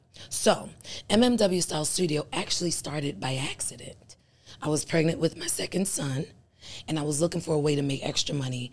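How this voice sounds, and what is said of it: Hoarse, deep voice. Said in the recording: “my voice is so hoarse ... Giving a little Barry White”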